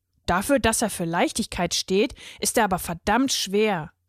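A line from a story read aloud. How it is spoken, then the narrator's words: Grumbled. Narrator (German): brummte er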